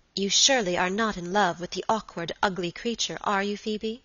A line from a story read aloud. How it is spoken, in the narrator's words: asked my lady sharply